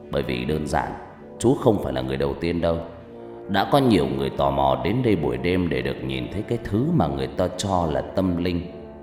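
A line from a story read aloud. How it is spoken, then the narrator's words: Laughing loudly. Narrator (Vietnamese): Vị bác sĩ cười lớn rồi ông ta nói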